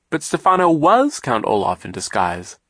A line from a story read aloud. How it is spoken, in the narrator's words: Klaus exclaimed